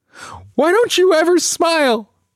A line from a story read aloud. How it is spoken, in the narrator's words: I scream the words, words coated in spikes of hurt, hoping to cut her